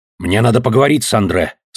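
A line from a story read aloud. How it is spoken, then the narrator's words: Menacing. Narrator (Russian): сказал он грозно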